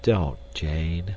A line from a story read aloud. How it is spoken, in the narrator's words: said Clayton sadly